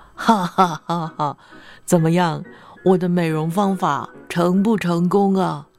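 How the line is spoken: Old monk, laughing. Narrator (Chinese): 老和尚笑着问她

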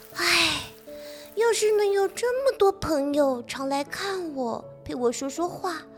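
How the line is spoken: Sighing. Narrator (Chinese): 她叹气说

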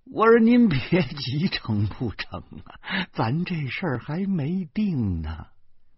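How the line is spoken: Tearful voice. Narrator (Chinese): 带着哭腔说

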